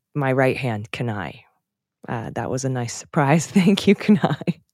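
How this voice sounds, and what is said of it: Emotional, choked-up voice. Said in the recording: “a little choked up.”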